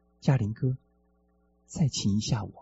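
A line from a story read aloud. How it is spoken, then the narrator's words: Quiet voice. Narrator (Chinese): 巧生小声说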